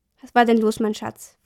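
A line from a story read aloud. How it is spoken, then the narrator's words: Gentle question. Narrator (German): fragte sanft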